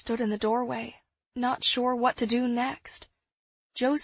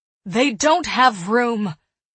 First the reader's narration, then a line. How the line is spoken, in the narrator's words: Eliza said fiercely